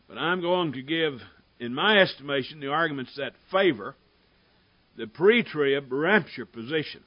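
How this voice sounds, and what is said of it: Strained, struggling voice. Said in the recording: “my voice is still going to be a struggle. It was this morning.”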